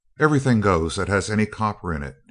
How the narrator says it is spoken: he said coldly

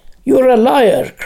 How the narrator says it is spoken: cried Lanark

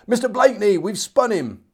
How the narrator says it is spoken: a man of my company named Oates called out

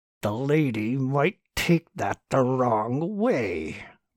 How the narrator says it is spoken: Martin said carefully through clenched teeth

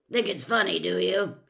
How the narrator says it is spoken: he growled

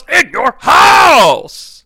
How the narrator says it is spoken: he yells

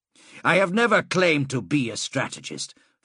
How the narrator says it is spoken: Fabius said sharply

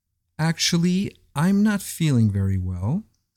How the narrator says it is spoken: said the poretz

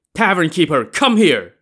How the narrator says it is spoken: he shouted angrily

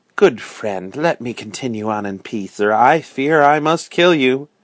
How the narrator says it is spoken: the stranger said sadly and gently

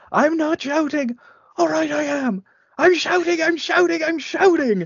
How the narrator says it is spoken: him uh, yelling

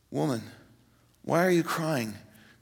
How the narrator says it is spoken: Very tenderly

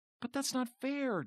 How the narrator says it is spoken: Jonathan whined

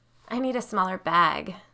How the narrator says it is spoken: whined

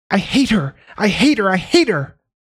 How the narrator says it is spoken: Eric had started screaming

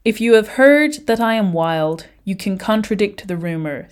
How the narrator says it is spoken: said Moon

